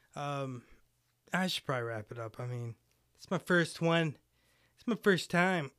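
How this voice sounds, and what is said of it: Hoarse, fading voice. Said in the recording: “I'm just kind of losing my voice today”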